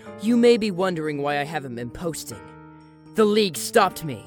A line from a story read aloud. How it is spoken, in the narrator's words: he growled